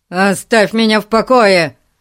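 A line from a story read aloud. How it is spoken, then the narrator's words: Angry. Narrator (Russian): сердито ответил мистер Гун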